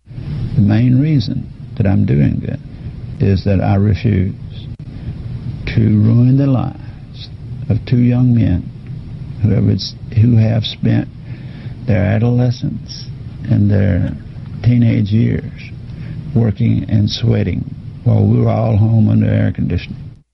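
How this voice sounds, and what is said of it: Older Southern Alabama accent. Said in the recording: “his accent made it better. It was straight out of To Kill a Mockingbird ... It sounded like Matthew McConaughey playing an Alabama DA ... an older Alabama DA”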